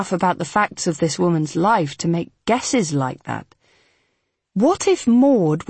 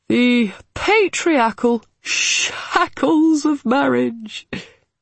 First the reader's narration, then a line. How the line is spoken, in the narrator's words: he said with a chuckle